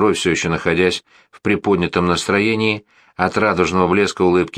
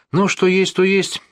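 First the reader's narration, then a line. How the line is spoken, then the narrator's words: Sigh. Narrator (Russian): вздохнул Барнаби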